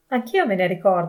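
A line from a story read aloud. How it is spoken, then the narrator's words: Exclamation. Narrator (Italian): esclamò Pietro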